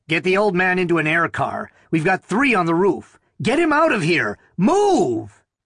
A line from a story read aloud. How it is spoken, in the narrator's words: His voice rose to a shout